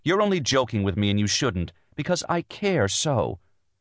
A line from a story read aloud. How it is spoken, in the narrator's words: said bitterly